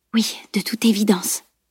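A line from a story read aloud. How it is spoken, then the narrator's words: Murmured. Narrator (French): murmura Camille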